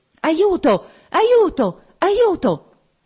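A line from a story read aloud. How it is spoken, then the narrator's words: Muffled rapid cries. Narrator (Italian): Una voce soffocata gridò tre volte rapidamente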